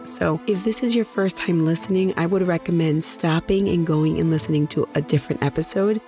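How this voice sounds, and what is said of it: Hoarse, nearly lost voice. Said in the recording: “my voice is practically gone. I wasn't feeling too well last week, and then I went out to PodFest and completely lost my voice.”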